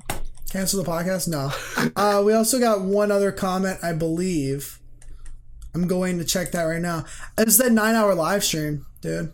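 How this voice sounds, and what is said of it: Strained, worn-out, fading voice. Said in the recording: “My voice is going on a little bit, if you couldn't tell at this point ... 9-hour live stream killed my voice.”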